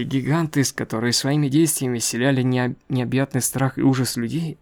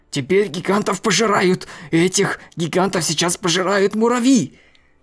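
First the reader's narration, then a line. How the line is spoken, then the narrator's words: Excited shouting. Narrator (Russian): Репортер возбужденным голосом кричал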